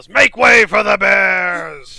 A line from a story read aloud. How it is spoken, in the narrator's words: Gillick yells